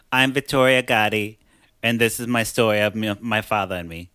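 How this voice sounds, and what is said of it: Imitates another person's accent. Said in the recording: “My accent is, like, killer today.”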